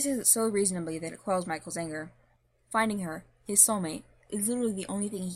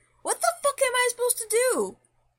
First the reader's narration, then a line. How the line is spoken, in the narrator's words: Michael shouts